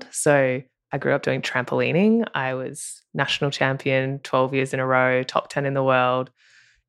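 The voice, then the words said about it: Australian accent. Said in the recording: “If you can tell by my accent, I'm Australian.”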